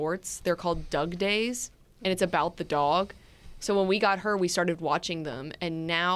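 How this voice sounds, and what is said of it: Usual voice. Nothing is said of it.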